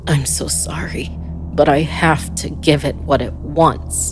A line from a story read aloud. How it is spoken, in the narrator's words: he said through gritted teeth